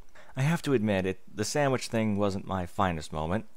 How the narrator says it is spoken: Twilight said with a sigh

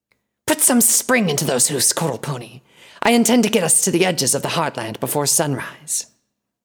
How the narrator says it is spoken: the snake monster hissed

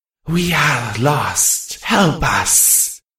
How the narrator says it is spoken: the thing rasped

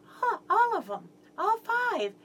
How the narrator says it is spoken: She just giggled and said

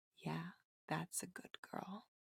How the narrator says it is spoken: whisper in a very low, warm, breathy tone

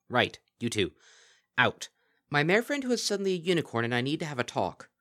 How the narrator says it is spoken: snapped

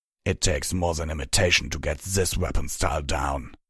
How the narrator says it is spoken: he growled

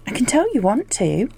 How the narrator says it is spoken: he laughed

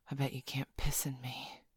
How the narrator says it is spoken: she said, her voice husky

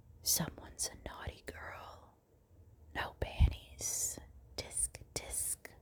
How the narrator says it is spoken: You hesitate for a moment and then whisper in my ear

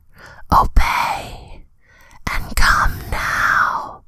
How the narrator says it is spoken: you hear her whisper

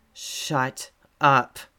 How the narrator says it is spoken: he growls again

